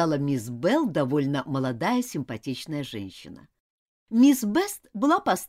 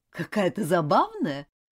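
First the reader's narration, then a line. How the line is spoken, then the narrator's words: Laughing. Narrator (Russian): рассмеялась мисс Белл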